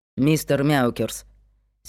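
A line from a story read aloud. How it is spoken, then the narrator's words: Angry hiss. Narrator (Russian): Сердито шикнула Аделаида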